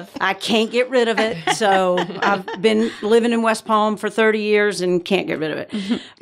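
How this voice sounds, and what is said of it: Georgia Southern accent. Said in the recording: “I am from Georgia originally, so that's the accent.”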